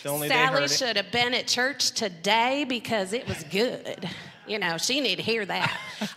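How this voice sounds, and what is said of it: Sudden put-on Southern accent. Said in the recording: “I don't know why I just got Southern all of a sudden.”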